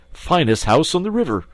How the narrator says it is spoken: cried Toad boisterously

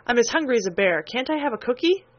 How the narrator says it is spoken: asked Mr

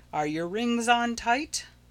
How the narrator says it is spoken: the guide will shout to you

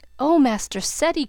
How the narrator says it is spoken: cried Bridget in an awe-stricken voice

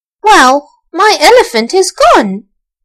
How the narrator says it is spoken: exclaimed Archie

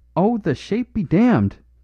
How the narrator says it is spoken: cried Flambeau

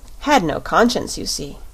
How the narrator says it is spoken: replied the shaggy man with a sigh

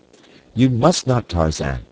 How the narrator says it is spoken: cried D'Arnaud

